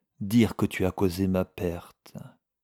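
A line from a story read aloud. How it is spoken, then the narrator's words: Murmured. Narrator (French): murmura Silver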